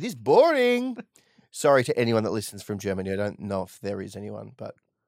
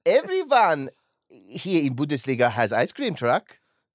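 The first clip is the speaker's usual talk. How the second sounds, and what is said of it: Put-on German accent. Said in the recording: “This is my German accent.”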